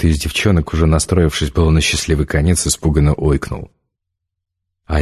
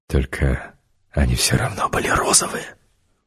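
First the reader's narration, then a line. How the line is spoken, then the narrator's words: Solemn whisper. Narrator (Russian): Я понизила голос до шепота и торжественно сказала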